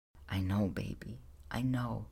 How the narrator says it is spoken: she murmured softly

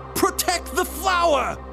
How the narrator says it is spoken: She screams

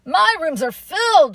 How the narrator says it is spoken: the owner yelled

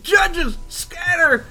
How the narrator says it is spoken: one of the punks is like pointing and yelling

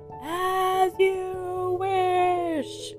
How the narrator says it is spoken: as he's rolling down the cliff, he's yelling

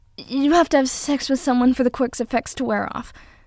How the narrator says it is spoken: Deku said in a rush, his voice pitched high

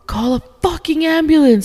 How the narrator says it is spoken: my wife screamed

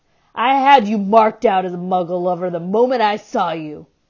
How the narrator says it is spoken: sneered Gaunt

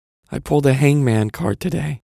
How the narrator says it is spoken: Wilkes mumbles to Frome

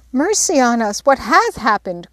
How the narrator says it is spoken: cried Jo, in dismay

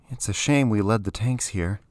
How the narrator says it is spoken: Keani said with a sigh

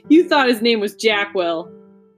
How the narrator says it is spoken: laughed Julian

